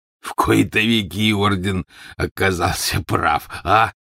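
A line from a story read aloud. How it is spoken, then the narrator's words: Stocky man, hoarse chuckle. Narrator (Russian): произнес сидевший неподалеку от Яксли коренастый мужчина и издал хриплый смешок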